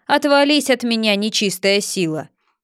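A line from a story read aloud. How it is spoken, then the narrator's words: Mighty heroic shout. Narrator (Russian): покрика богатырского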